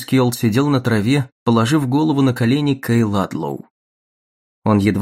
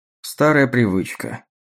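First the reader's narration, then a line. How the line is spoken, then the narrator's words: Sighing explanation. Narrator (Russian): вздохнув, объяснил он Дагне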